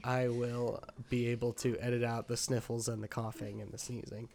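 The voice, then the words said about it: Stuffed-up, congested voice. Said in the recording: “I am ill ... as you can probably hear ... He sounds a little stuffed up ... stuffy baby ... He's a stuffy boy”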